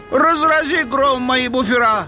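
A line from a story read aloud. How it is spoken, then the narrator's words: Shouted. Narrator (Russian): закричал он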